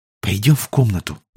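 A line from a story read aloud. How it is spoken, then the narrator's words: Whispered. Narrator (Russian): прошептала она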